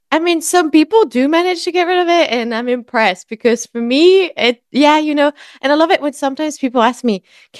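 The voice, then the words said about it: French accent. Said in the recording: “you might be able to hear it. I am French. And as much as I try to get rid of this accent, it does not go away.”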